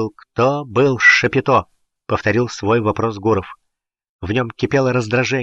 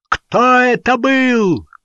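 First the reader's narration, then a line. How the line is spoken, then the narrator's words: Roaring. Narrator (Russian): взревел Гуров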